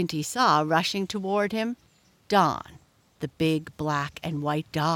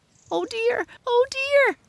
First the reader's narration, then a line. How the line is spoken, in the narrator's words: squealed Squinty